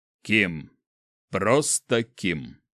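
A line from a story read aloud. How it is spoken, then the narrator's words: Smirking snort. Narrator (Russian): хмыкнул он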